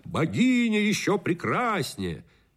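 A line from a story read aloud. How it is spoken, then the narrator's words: Shouting at top of voice. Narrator (Russian): другие кричали во все горло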